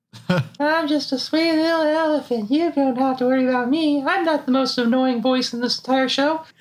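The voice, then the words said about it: Sweet little elephant cartoon voice. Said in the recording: “do a Tree Trunks voice”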